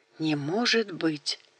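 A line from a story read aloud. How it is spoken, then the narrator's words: Faint whisper. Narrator (Russian): Даниэль сумел лишь прошептать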